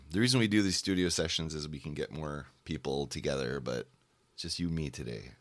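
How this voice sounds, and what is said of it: Hoarse, strained voice. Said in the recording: “Wow, my voice. I'm losing my voice.”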